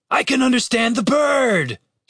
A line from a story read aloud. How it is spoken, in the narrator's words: Dave shouted